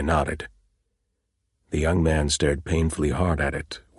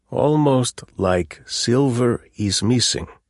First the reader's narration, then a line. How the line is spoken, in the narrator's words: Kaz repeated patiently and very slowly